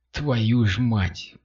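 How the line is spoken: Muttered through gritted teeth. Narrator (Russian): процедил курьер сквозь зубы

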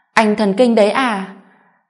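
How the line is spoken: Angry scolding. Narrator (Vietnamese): An Noãn tức giận mắng

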